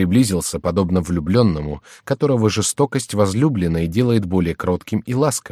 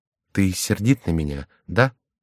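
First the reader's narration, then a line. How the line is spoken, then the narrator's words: Quiet voice. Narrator (Russian): прибавил он тихим голосом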